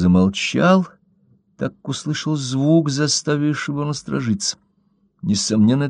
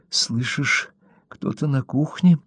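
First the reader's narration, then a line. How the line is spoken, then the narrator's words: Whisper. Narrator (Russian): прошептала Кэрри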